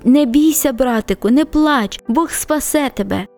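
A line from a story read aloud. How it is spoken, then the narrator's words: Whisper. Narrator (Ukrainian): вона шепотіла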